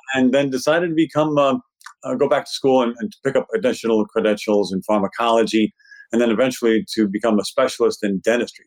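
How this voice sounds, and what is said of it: Brooklyn New York accent. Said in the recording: “living in New York City, which you can tell just by listening to me. Eventually you'll get that Brooklyn accent down”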